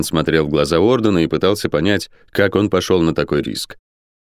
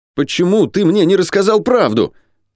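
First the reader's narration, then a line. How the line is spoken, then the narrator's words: Demanding near-shout. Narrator (Russian): требовательно почти выкрикнул Ран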